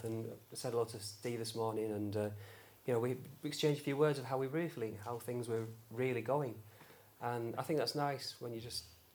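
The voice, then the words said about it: Very fast speech. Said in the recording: “I'm talking very fast”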